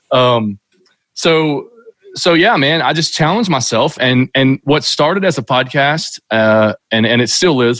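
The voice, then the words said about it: Kentucky accent. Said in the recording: “what's this Kentucky hillbilly ... this guy's accent”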